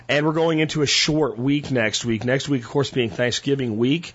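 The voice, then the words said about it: Recovering, strained voice. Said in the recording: “My voice is still coming back. As you can hear, it's better than it was yesterday, but I am not going to strain it”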